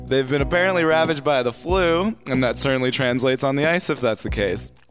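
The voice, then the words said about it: Monotone sports broadcaster voice. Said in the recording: “doing that voice? ... You sound like a monotone broadcaster.”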